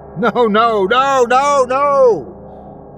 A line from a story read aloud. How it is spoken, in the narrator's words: Kenneth yelled